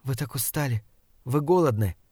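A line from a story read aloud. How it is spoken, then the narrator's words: Whispered. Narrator (Russian): прошептала она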